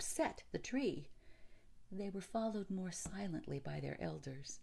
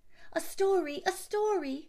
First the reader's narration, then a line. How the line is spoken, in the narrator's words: cried the children